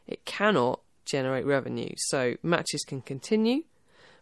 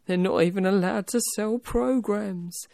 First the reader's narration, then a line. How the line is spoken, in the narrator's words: a fan from one of the groups mournfully said